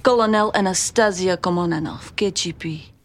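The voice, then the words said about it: Fake accent, fairly convincing. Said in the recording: “She is doing a much better fake accent than the lady in that first scene.”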